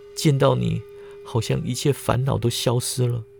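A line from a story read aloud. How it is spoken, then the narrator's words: Soft tearful sobbing voice. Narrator (Chinese): 柯婉清泪水决堤，背心起伏，轻声道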